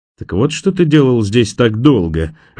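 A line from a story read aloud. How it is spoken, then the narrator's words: Laughing. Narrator (Russian): рассмеялся Джанни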